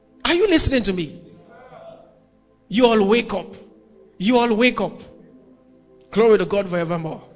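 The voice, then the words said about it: Shouting at the top of voice. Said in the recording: “I'm shouting like this... I'm shouting at the top of my voice”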